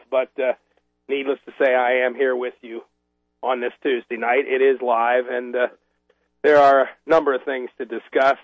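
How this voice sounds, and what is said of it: Raw, rough voice. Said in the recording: “My voice is a little raw. This is allergy season here in Washington, D.C., and it's been pretty rough on allergy sufferers, of which I unfortunately must include myself.”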